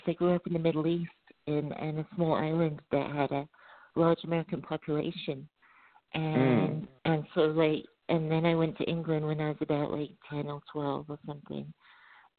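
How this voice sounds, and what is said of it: Mixed transatlantic accent. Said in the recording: “I kind of grew up with an American accent ... my accent, I feel like it's changed over the years so much that it's just become this weird transatlantic twang and no one can tell where I'm from”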